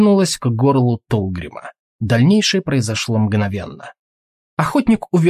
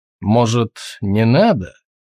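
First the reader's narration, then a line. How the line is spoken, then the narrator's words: Gloomy. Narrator (Russian): мрачно сказал Тулгрим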